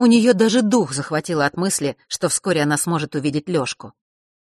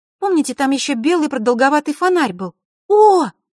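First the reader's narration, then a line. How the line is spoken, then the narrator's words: Sudden exclamation. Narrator (Russian): неожиданно воскликнула она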